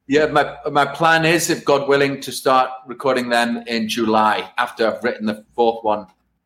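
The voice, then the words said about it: Distinct accent. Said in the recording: “You have such a distinct accent and voice”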